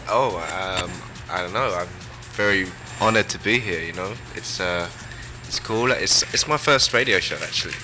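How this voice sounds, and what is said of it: South London English accent. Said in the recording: “you're from England? That's an English accent? ... That's a specifically South London accent.”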